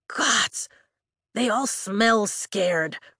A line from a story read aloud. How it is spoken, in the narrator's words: Riddick whispers